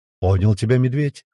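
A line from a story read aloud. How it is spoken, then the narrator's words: Plain. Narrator (Russian): ответил Круглов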